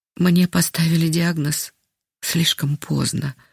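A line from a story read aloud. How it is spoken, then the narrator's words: Sigh. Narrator (Russian): вздохнула она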